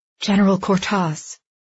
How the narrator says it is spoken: Andy gasped

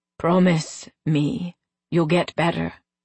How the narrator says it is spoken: he whispered

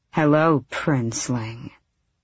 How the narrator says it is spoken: she said, her voice bedroom soft and full of glorious death

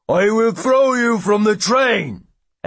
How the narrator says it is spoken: The giant then picks the man up, roars

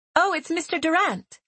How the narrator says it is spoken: Sarah said excitedly

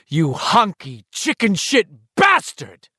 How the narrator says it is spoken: Henry uttered a shriek of rage

